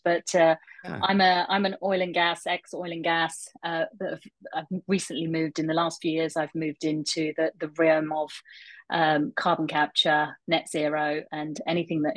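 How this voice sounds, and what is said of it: London English accent. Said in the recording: “originally from London, as you may be able to tell from the accent.”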